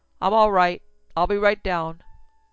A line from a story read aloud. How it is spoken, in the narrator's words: Over his shoulder he shouted